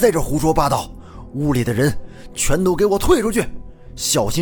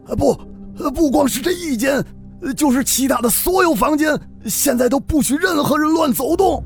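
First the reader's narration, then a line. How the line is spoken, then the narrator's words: Strained shout. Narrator (Chinese): 何父方才醒过神来，使了好大的劲儿才喊出了声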